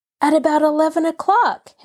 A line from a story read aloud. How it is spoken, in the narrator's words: Henry cried